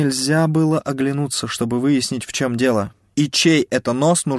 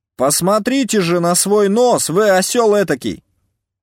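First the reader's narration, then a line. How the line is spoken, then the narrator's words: Louder shout. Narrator (Russian): Крикнул тот же голос, но уже громче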